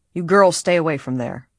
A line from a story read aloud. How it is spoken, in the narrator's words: he advised sharply